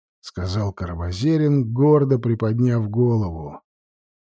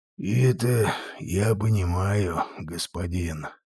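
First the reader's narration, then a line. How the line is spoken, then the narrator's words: Old devil sighing. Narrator (Russian): вздохнул старый черт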